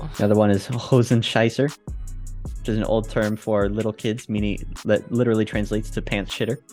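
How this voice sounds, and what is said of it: Usual voice. Nothing is said of it.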